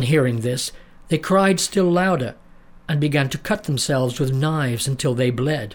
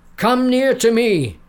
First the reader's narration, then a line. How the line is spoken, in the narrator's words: he cried